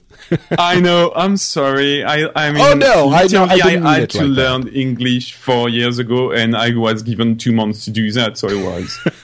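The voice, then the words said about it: French accent. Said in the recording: “his wonderful French accent”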